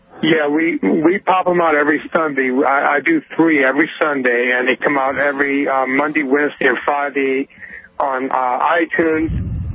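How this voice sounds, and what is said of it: Tired voice. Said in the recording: “my voice is a little tired, because I just got through doing 4 hours of my own podcast”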